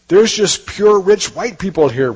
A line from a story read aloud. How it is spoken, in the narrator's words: Richie pleads